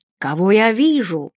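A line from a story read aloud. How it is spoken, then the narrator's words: Exclaimed. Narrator (Russian): воскликнул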